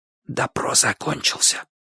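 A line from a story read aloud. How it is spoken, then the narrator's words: Whisper. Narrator (Russian): шепнул Бочу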